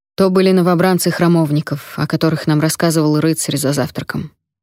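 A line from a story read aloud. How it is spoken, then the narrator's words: Gloomy. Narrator (Russian): мрачно сказал он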